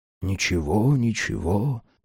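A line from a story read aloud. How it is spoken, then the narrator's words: Muttering. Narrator (Russian): пробормотал он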